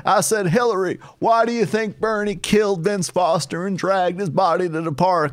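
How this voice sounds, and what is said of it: Imitates another person's voice. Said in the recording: “He had a really good Bill Clinton impression.”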